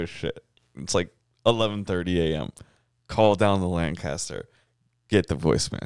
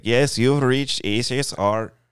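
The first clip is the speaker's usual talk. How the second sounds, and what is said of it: Imitated voicemail greeting accent. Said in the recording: “It's pretty good. ... Good accent.”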